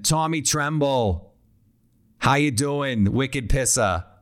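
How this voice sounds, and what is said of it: Put-on Boston accent. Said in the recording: “don't you just want to say that in a Boston accent?”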